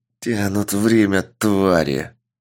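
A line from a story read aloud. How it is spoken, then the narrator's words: Growled. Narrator (Russian): прорычал Сергей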